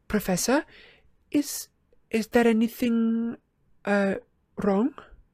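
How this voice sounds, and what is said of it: Hushed, quiet voice. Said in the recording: “in a hushed voice”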